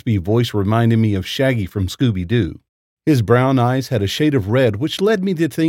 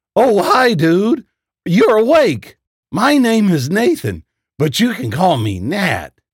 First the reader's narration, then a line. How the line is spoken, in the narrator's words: The man smiled at me and exclaimed